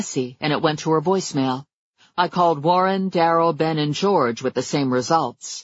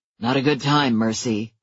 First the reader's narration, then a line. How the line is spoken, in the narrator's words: he said tightly